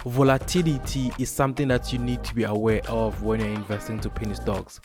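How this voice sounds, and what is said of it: Noticeable accent, unusual pronunciation. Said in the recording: “I know my accent and how I pronounce it is a little bit funny”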